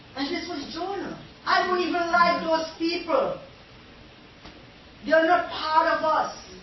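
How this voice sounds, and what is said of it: Trinidadian accent. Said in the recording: “Oh, your accent, you're from Jamaica. I said, no, I'm from Trinidad.”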